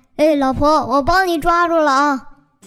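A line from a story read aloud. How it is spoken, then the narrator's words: Father shouting loudly. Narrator (Chinese): 爸爸…大声的叫道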